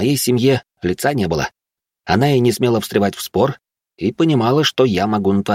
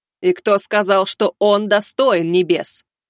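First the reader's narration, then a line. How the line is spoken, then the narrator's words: Thundering, losing patience. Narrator (Russian): прогремела она, явно теряя терпение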